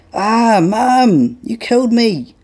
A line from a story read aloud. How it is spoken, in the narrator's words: yells Caleb